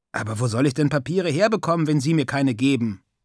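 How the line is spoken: Plain. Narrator (German): fragte ich

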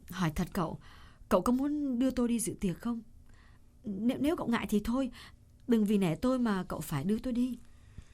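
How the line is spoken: Hesitant. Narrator (Vietnamese): Cô ngập ngừng một chút rồi nói

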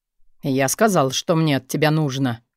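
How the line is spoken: Cold remark. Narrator (Russian): Холодно заметил Стил

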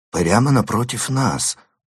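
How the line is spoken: Mutter. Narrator (Russian): пробормотал

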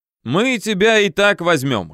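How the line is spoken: Girls laughing. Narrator (Russian): хохотали девицы

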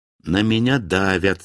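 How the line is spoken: Plain. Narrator (Russian): сказал я

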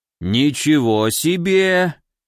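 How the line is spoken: Drawn-out old man's voice. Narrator (Russian): протянул старик

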